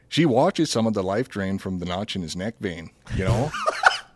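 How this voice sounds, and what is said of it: Put-on Minnesotan accent. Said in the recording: “I feel like I can do a Minnesotan accent... I'll just do Minnesotan.”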